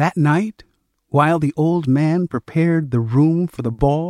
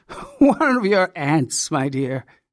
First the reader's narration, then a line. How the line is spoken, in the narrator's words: he chuckled